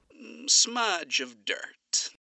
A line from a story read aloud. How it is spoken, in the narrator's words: he murmured